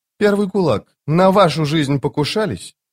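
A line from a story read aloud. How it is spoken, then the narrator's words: Cheerful smirk. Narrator (Russian): Доджик весело усмехнулся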